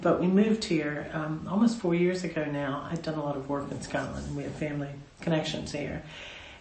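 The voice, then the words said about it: Non-Scottish accent. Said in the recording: “You can tell by my accent that I wasn't born in Scotland”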